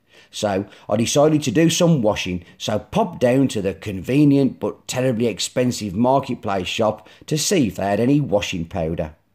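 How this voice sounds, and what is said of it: Black Country accent. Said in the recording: “my black country accent”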